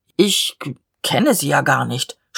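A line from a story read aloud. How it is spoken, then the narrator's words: Stammered. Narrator (German): stammelte der Leutnant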